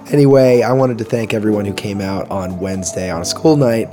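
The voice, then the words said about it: Voice worn and in poor shape. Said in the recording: “I hope you're doing better than my voice at the moment. As you can tell, I had quite the weekend... my voice is paying for it at the moment”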